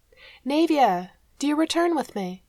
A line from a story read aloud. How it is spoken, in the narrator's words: Nasir called out to her